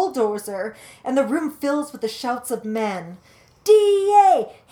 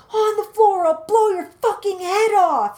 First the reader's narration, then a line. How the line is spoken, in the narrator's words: he screams